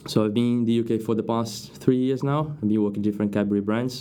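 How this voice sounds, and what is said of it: Brazilian accent in English. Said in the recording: “As you can tell by my accent, I'm not from the UK. I'm Brazilian.”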